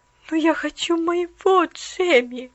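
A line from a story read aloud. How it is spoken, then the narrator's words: Sad mutter. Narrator (Russian): грустно пробормотала она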